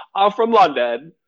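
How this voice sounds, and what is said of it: Bad imitation of London accent. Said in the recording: “in that trash accent he did”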